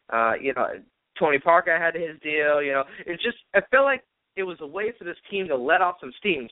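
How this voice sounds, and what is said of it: Boston accent. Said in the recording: “I love your Boston accent”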